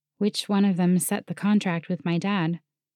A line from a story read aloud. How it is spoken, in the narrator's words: I asked, my voice hollow